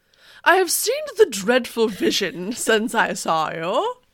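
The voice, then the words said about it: Put-on British poet accent. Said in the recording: “I'm going to do a British accent for this ... That's a poet voice, right?”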